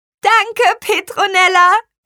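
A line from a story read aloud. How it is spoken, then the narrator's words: Called out. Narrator (German): rief sie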